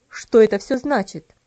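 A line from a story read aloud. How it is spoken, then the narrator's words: Stern, angry question. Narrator (Russian): спросил он строгим, сердитым голосом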